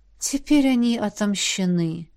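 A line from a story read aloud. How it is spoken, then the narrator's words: Tired whisper. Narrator (Russian): устало прошептала ректор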